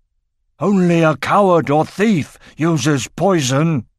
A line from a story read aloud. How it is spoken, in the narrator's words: exclaimed Doric